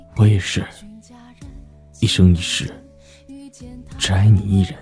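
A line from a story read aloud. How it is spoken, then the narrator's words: Deep low voice. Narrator (Chinese): 沉声道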